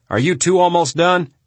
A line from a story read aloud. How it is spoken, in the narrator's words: When he had heard enough, he yelled at Jordan and Tony